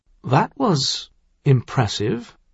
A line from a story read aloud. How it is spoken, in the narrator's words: Crown Prince Caleb said quietly